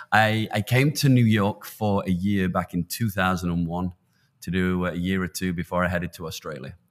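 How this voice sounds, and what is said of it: British accent with American influence. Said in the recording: “I think you can still tell, I was British born and bred ... you sound Australian or South African, because I'm somewhere between America and England now”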